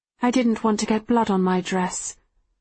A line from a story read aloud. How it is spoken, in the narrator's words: I say dryly